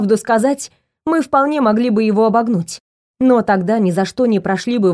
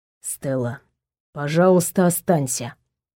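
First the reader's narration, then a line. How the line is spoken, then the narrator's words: Quiet request. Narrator (Russian): негромко попросил Эманор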